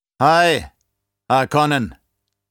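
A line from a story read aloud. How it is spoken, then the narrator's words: Slave calling out. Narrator (German): rief der Sklave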